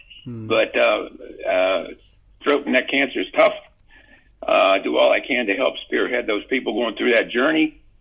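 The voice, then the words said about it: Strained, fading voice. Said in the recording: “As you probably can tell, I lose my voice when I talk too much”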